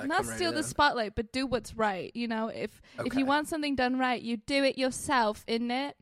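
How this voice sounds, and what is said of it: Put-on accent. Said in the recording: “if I started talking in the accent”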